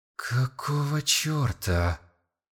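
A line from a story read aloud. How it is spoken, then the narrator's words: Grumbling. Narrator (Russian): Заворчал Сон Мин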